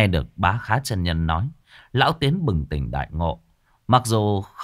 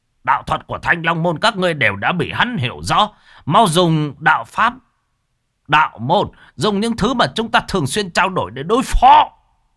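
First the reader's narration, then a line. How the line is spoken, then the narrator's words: Shouting mid-fight. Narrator (Vietnamese): Vừa giao thủ với ba tên thất sát, lão Khá vừa hét lên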